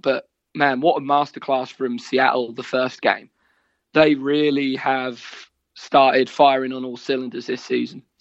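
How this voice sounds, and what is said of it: Norfolk English accent. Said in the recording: “the more the accent starts to come out. You're getting more and more Norfolk as you go through that story.”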